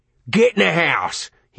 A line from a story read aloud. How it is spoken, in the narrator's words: he roared